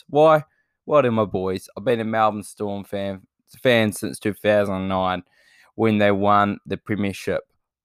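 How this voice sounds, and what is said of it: Excited, energetic voice. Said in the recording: “you can probably hear it in my voice. I'm a little bit more excited about this one”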